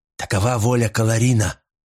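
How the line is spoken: Hissed. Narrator (Russian): прошипел Агба

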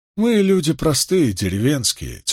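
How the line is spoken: Heavy sigh. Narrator (Russian): тяжело вздохнул Бран

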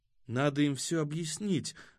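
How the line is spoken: Timid, shaken suggestion. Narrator (Russian): робко предложила Зарима, потрясенная коварством пришельцев

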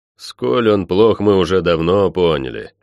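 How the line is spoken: Displeased grumbling. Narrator (Russian): недовольно пробурчал я

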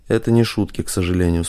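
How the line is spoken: Calm, composed. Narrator (Russian): спокойно произнес Жданов, единственный из всех, кто не потерял присутствие духа

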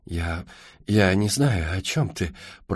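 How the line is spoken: Stuttering mumble. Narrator (Russian): пробормотала она, заикаясь

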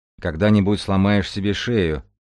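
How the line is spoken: Grumbled with feigned displeasure. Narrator (Russian): проворчал Мальгин-старший с притворным недовольством

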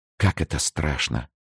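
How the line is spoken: Whisper. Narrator (Russian): прошептала Лавальер

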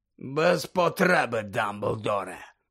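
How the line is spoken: Hoarse growl. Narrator (Ukrainian): хрипке гарчання

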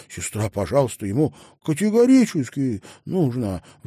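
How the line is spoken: Pleading. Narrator (Russian): взмолился Малькольм

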